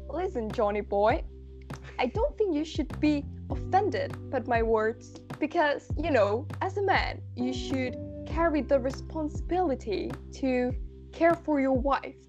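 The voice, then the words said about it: Attempted, poor put-on English accent. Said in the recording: “Do I have to do it in an English accent? ... I'm sorry for all the English people that I'm gonna offend with this. I will probably fail halfway and just carry on with my terrible Spanish accent.”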